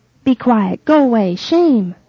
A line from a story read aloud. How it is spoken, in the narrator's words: shout the crowd